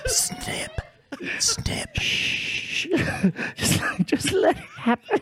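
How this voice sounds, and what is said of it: Whispering. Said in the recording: “Is he whispering snap? Is he whispering ... my technique is a whisper”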